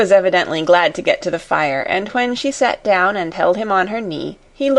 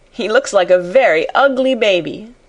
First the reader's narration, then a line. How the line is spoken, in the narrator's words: laughed Sarah